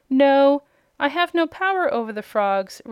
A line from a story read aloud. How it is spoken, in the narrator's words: Rosalie answered